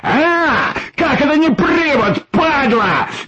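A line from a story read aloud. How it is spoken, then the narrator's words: Panicked shout. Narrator (Russian): закричал в панике Николай Николаевич, потерявший власть над своими эмоциями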